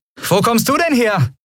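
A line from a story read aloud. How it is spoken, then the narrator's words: Called out. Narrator (German): rief Endriel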